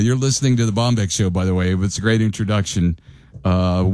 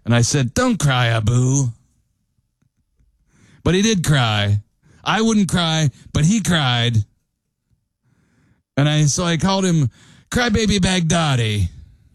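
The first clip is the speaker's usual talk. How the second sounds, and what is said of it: Poor imitation of another person's voice. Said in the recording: “my very poor Trump impersonation”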